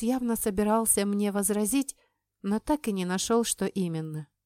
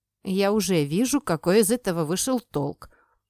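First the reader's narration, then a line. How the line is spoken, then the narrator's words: Grumbling father. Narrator (Russian): пробурчал отец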